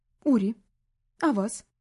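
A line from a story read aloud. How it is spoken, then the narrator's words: Calm. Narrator (Russian): произнесла спокойно та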